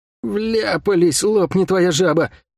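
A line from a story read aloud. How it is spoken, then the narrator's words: Groan. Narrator (Russian): простонал Лук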